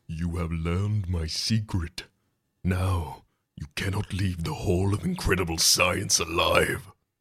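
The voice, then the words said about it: Strange deep character voice. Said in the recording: “A strange, deep voice answers.”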